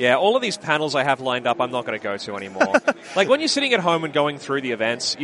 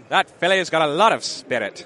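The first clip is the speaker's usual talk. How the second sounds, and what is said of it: Put-on accent. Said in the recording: “Everything someone says in that accent sounds sexist.”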